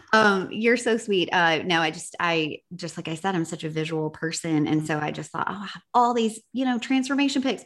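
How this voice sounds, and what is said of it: Noticeably strong accent. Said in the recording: “why is my accent? ... The accent come out so much more whenever I get all the warm and fuzzies.”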